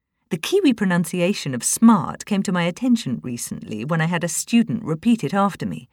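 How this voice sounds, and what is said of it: New Zealand accent. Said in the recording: “I haven't lost my New Zealand accent completely”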